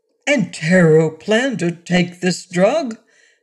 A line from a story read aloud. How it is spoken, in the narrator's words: George Carter exclaimed